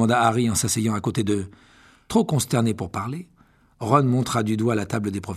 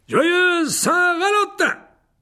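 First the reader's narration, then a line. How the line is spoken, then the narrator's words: Exclaimed. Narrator (French): s'écria Lockhart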